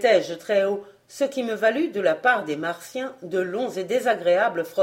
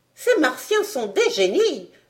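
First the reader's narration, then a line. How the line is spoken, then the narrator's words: Exclaimed. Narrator (French): s'exclama le docteur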